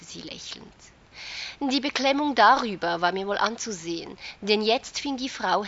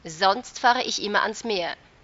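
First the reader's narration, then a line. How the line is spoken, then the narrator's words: Defiant. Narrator (German): hörte ich mich trotzig sagen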